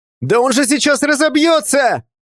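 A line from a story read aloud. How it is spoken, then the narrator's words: Yelled. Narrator (Russian): заорал Сашка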